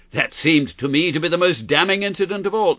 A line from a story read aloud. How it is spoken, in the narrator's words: I cried